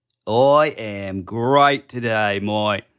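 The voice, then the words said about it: Bad put-on Australian accent. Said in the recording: “Terrible ... should we just speak in only an Australian accent? ... it's not good at all”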